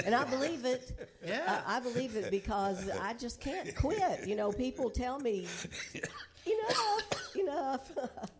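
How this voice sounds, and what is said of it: Southern American accent. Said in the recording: “You have a southern accent”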